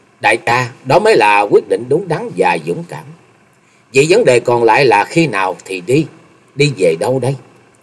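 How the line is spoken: Smiling speech. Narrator (Vietnamese): Chung Nhật Tự mỉm cười nói

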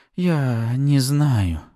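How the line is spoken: Breathless exhale. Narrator (Russian): выдохнула суккуба

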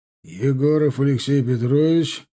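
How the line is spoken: Deep bass voice. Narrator (Russian): пробасил капитан

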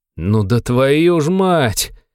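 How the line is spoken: Doomed exhale. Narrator (Russian): обреченно выдохнул Антоха

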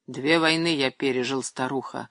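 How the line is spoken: Grim. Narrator (Russian): мрачно сказал Андрей Иванович

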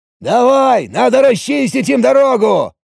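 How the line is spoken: Shouting. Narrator (Russian): прокричал Ориджинал

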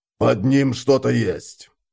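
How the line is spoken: Muffled, dull. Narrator (Russian): глухо сказал он

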